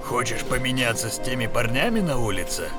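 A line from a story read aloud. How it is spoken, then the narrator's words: Gloomy old man's mutter. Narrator (Russian): Угрюмо пробурчал старый Фрэнк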